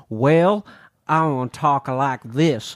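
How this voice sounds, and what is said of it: Stereotypical Western American accent, English-tinged. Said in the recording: “He had a really bad... like stereotypical, like old school Western American accent... I can't quite do it badly enough because I can't dilute it enough into my English accent.”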